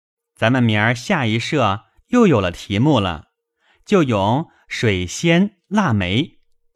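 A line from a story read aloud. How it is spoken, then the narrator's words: Laughing. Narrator (Chinese): 宝玉笑道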